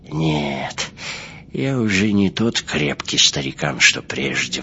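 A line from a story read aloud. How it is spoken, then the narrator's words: Sigh. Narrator (Russian): вздохнул он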